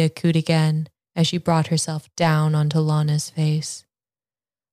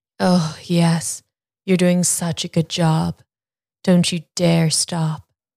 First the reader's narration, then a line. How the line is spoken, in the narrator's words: Julia moaned